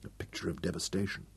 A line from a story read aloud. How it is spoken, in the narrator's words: Royan whispered